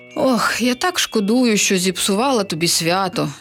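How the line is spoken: Sighing witch. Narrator (Ukrainian): зітхнула відьма

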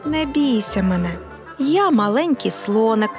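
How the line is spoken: Plain. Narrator (Ukrainian): відповів він

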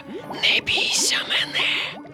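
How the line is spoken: Whisper. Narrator (Ukrainian): прошепотів він

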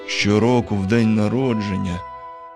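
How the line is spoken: Sad mutter. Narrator (Ukrainian): сумно пробурмотів він

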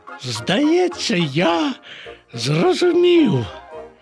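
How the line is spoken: Exclamation. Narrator (Ukrainian): вигукнув Боня

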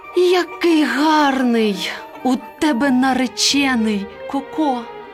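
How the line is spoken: Excited hen exclaiming. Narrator (Ukrainian): курка Паула, побачивши такого красеня, вигукнула

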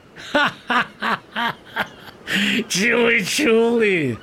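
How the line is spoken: Sailors laughing. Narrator (Ukrainian): засміялися матроси

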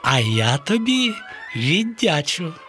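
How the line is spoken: Joyful. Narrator (Ukrainian): радісно сказала хмаринка

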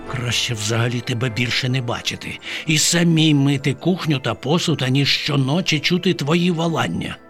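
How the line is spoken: Muttering. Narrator (Ukrainian): пробурмотіла бабаківна

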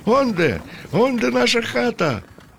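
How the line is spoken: Cheerful shout. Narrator (Ukrainian): закричав весело

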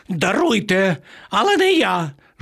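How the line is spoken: Pitiful shriek. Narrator (Ukrainian): жалюгідно заверещав пан Марво

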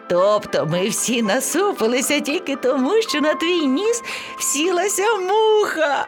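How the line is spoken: Laughing lion cub. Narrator (Ukrainian): Сміялося левеня

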